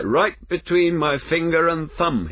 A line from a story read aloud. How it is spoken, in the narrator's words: he cried